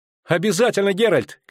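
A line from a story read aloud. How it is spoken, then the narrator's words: Shouting. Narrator (Russian): крикнула Ангулема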